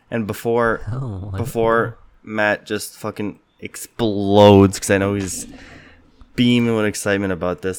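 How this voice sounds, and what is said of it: Sick-sounding voice. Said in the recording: “if you couldn't tell from my voice, I'm a little sick boy today”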